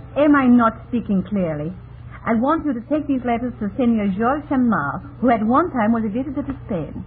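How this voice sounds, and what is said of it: Unusual foreign accent. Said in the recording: “her unusual accent”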